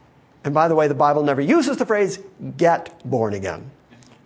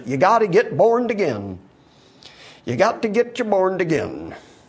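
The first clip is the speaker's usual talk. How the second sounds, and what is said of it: Mock sweet Southern US accent. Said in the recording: “the Southern accent our friend in South Africa likes so much. Would you call that sweet Southern accent? I'm sort of mocking that right now.”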